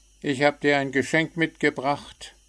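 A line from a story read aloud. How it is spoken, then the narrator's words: Cheerful call. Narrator (German): rief Zwitschi munter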